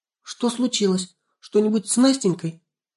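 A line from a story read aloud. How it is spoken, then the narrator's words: Frightened gasp, mother. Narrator (Russian): испуганно ахнула мама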